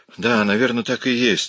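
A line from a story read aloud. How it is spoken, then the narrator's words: Relieved sigh. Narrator (Russian): облегченно вздохнул Миш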